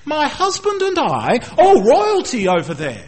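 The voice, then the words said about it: Posh English royal accent. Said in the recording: “we can identify royalty by the accent ... a posh English accent”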